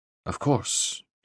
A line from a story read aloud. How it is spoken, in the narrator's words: added more quietly